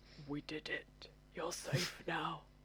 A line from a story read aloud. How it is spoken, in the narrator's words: While blood streams off my face and I whisper